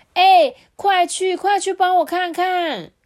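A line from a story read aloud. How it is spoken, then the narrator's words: Shouting. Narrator (Chinese): 松树又大喊说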